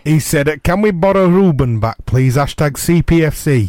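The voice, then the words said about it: Put-on Yorkshire accent. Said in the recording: “I don't know why I spoke in that kind of Yorkshire accent.”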